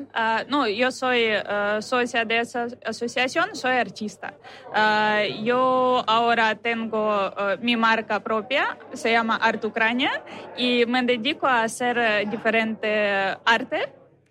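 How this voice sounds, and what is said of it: Noticeable foreign accent in Spanish. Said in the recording (Spanish): “¿Tu acento te delata? ... Sí.”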